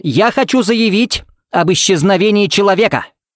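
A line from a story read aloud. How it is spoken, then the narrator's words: Barked. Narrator (Russian): рявкнул Смит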